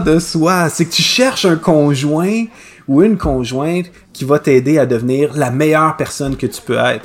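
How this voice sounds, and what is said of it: Québécois French accent. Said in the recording (French): “Est-ce que tu ris de mon accent encore? ... on peut pas, on peut pas euh, sortir le Québécois du Québécois”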